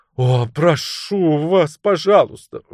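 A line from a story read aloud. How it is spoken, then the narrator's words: Exclaiming. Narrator (Russian): воскликнула миссис Прот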